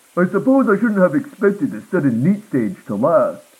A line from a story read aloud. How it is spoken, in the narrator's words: my dad muttered